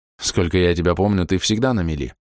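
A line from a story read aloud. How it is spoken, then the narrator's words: Snorted. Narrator (Russian): хмыкнул Алик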